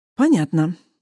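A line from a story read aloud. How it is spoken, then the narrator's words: Sighed. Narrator (Russian): Вздохнул Индан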